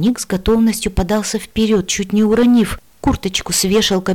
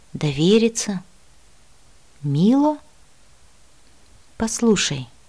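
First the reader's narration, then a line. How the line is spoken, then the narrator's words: Slow. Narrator (Russian): медленно произнесла я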